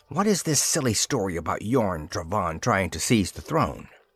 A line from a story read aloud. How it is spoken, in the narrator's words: she hissed into his ear